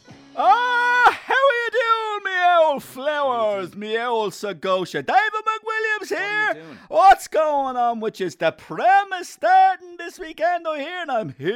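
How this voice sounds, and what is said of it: Put-on silly accent. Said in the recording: “will you cut out the stupid accent”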